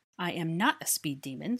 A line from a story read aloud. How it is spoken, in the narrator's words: scoffed Granger